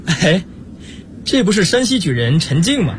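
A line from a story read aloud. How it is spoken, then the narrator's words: Laughing question. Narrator (Chinese): 明珠笑着问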